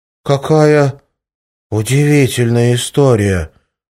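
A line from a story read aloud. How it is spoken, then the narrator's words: Child exclaiming. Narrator (Russian): воскликнул сероглазый ангелочек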